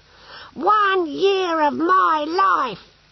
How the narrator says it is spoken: he shouted

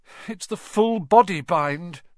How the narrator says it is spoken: said Hermione miserably

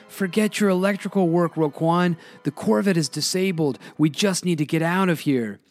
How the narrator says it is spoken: Ted yells back from the cockpit

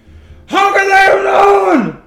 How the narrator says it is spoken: One screams

